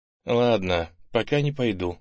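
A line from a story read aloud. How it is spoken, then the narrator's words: Sigh. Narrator (Russian): вздохнул он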